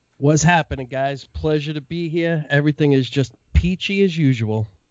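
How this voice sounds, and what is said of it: New York accent. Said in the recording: “I heard some New York accent.”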